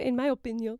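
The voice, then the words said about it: Put-on French accent. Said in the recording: “You just made up a French accent of opinion.”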